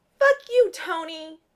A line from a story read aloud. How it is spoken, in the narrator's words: Clint shrieks